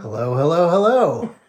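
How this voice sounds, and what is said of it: Showbiz podcast announcer voice. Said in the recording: “that's my showbiz podcast voice”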